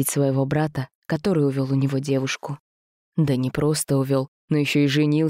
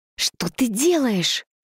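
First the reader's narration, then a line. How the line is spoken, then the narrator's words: Hissing. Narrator (Russian): прошипела девушка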